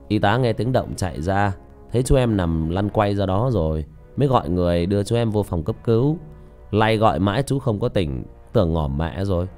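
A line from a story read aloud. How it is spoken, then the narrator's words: Smiling. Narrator (Vietnamese): Vị bác sĩ mỉm cười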